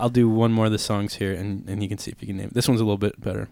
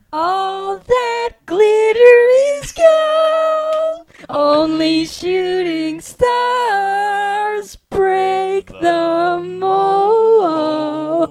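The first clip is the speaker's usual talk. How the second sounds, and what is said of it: Singing in a little boy voice. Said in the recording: “I'll sing it for you in a little boy voice”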